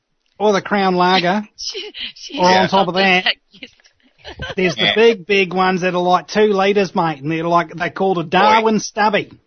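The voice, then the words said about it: Put-on mild Australian accent. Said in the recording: “like it's like they do an Australian, but not the strong accent... That's Kim and Cass stuff you're doing there”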